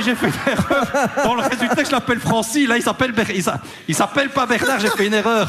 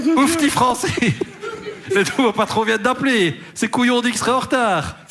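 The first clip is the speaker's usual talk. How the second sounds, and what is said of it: Put-on Liège Belgian French accent. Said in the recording (French): “ça, c'est un accent liégeois”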